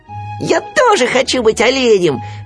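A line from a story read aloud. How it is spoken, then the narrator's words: Shouting. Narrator (Russian): закричал Ру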